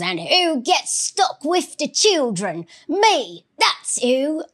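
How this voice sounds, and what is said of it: Bad put-on Cockney accent. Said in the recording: “my bad Cockney accent”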